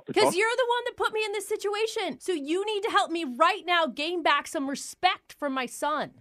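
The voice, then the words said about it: Shouting angrily. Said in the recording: “stop yelling”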